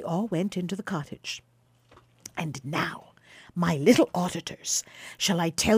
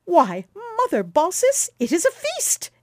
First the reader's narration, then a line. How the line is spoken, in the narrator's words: exclaimed Quicksilver, laughing